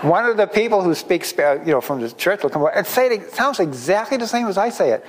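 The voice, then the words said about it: Boston accent. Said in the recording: “I'm talking with a Boston accent”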